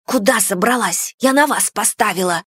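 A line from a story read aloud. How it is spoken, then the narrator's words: Hiss. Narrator (Russian): прошипела Нари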